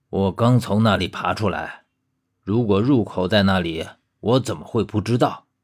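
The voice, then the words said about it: Sarcastic, strange-toned voice. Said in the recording (Chinese): “用阴阳怪气的声音说”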